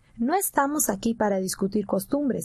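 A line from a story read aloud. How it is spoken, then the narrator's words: Plain. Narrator (Spanish): dijo el ranchero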